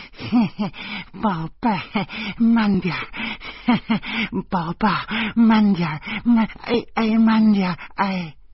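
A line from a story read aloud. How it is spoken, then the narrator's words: Grinning, repetitive. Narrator (Chinese): 林娜却车轱辘话来回说，咧着嘴笑着说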